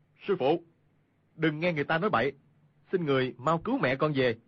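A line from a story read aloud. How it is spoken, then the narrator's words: Raised voice calling. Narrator (Vietnamese): cao giọng gọi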